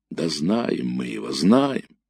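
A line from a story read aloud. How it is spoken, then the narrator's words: Respectful drawl. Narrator (Russian): уважительно протянул ефрейтор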